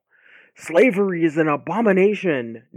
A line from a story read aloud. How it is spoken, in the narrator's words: Ned yelled at a marble fountain